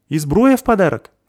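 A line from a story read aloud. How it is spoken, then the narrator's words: Shouted reply. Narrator (Russian): закричала в ответ Заверушка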